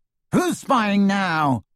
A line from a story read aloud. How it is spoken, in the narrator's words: shouted